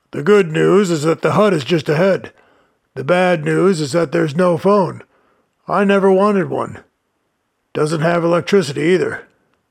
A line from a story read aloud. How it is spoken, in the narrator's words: boomed the giant